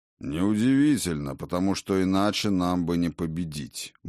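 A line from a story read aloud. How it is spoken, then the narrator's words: Grumble. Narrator (Russian): буркнул Один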